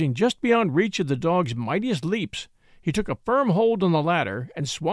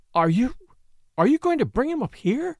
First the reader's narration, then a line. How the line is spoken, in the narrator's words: She gasped